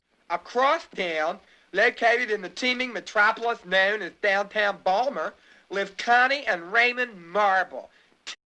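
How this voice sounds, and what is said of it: Heavy Baltimore accent. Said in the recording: “the Baltimore accent ... And it is bad. ... a little soundbite of what that sounds like”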